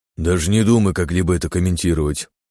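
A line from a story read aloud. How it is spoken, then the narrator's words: Grumbling mutter. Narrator (Russian): буркнула Сеченова Илья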